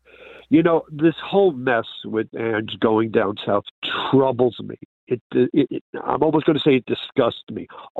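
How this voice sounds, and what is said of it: New York City accent. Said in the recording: “You're from New York City. I see. We can tell from the accent, actually.”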